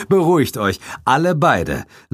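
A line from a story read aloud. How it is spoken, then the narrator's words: Laughing. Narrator (German): lachte ich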